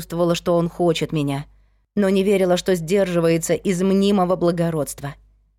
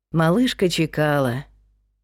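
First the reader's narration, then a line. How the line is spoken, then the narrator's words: Smiling. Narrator (Russian): улыбнулся он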